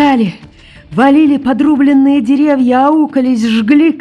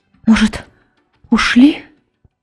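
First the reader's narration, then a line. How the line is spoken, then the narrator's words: Whisper by ear. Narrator (Russian): шепнула над ухом Камелькова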